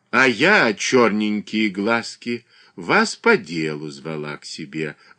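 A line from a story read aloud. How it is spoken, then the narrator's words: Affectionate greeting. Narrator (Russian): ласково встретила ее княгиня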